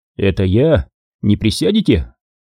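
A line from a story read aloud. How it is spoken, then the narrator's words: Calm friendly speech. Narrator (Russian): Говорил он спокойно, выглядел общительным и дружелюбным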